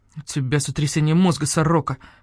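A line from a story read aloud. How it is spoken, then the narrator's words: Gloomy. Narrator (Russian): мрачно сказал барсукот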